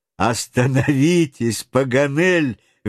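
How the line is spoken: Laughing interjection. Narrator (Russian): вмешался хохотавший от души Гленарван

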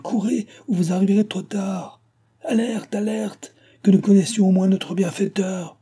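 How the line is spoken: Shouting. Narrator (French): cria-t-il

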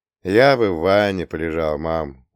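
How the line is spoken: Tired. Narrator (Russian): устало внулся

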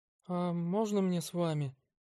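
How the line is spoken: Timid question. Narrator (Russian): робко спросила медсестра

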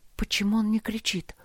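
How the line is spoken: Whisper. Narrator (Russian): прошептала она

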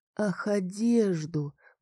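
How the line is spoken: Thoughtful. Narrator (Russian): произнесла я задумчиво

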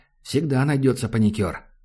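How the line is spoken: Sighed. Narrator (Russian): Макс вздохнул

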